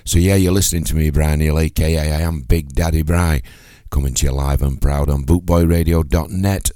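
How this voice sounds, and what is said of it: Husky, hoarse voice. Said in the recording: “my voice is even more huskier this morning. I'm struggling with a bit of a chest infection”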